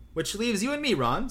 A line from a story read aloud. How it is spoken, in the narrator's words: said Tonks brightly